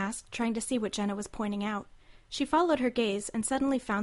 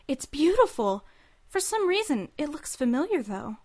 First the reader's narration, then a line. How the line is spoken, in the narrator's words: Alicia gasped with surprise and added